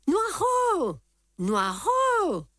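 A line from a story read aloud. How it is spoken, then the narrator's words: Sudden anguished choked shout. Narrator (French): cria tout à coup une voix étranglée par l'angoisse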